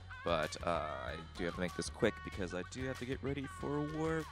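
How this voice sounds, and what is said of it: Raspy, groggy voice. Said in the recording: “I just woke up, so it's probably why I sound so raspy and less announcer warmy-like”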